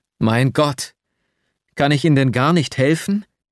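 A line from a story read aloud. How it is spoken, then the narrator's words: Desperate cry. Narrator (German): rief ich ganz verzweifelt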